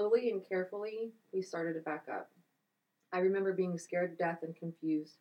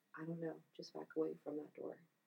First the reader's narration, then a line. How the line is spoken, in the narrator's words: She quietly whispered